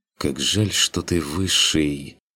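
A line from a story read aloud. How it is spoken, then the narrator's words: Quiet whisper. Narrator (Russian): Тихо прошептала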